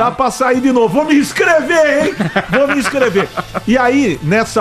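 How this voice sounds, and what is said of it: Usual voice. Nothing is said of it.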